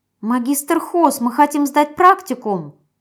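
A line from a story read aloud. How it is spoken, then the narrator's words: Squeaky. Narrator (Russian): пропищал самый крайний из них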